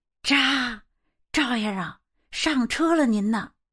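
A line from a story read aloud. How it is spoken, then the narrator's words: Low call. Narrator (Chinese): 他低声的叫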